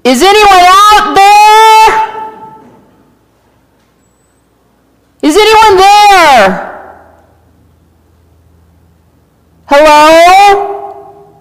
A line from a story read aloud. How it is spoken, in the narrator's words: I yelled